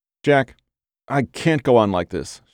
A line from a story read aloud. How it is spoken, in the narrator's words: said